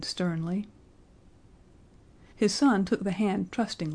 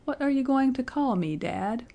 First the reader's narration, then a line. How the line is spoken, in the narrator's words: he quavered